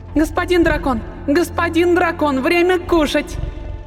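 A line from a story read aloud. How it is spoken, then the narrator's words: Shouted. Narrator (Russian): Крикнула Ростелина дракону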